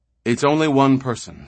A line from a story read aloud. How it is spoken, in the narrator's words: said Torrin, with open relief, and his voice was almost shaky